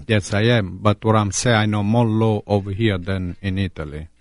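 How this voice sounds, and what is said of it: Strong Italian accent. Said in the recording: “you managed to keep that great accent”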